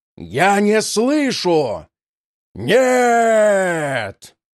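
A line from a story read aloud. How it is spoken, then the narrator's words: Frenzied ear-splitting scream. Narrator (Russian): Вердил завопил так неистово, что заломило зубы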